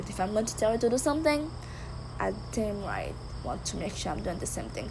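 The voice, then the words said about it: Thick accent. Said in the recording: “my thick accent”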